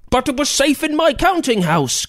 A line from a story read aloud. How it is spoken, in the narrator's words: Grizzlewald shouted